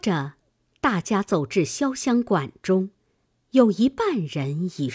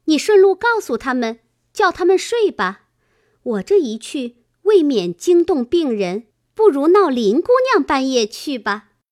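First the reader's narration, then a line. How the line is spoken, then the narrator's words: Laughing. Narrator (Chinese): 湘云笑道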